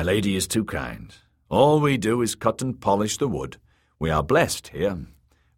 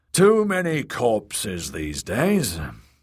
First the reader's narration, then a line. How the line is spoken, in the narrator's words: the elder brother sighed